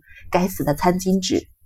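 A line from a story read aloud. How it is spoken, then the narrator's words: Muttering. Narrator (Chinese): 他嘀咕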